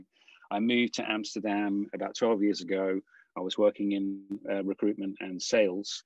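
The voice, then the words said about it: British accent. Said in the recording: “as you can hear from my accent, I'm born in the UK”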